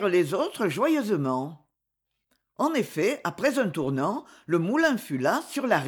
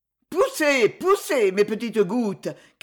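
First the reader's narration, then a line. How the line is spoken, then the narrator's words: Shouting while laughing. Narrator (French): criait la roue en riant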